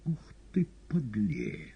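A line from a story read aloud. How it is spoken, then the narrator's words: Thoughtful. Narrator (Russian): задумчиво сказал Воланд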